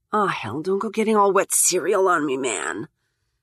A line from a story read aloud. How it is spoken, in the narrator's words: she mutters